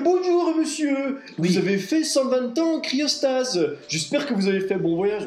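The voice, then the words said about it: Put-on Marseille accent. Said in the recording (French): “l'IA parle en marseillais.”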